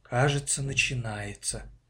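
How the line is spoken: Mother's quiet reply. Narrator (Russian): тихо ответила мама

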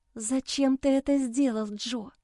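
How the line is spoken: Tearful despairing whisper. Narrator (Russian): прошептала я, когда накатились слезы безысходности

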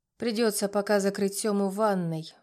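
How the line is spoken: Sighed. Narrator (Russian): вздохнула я

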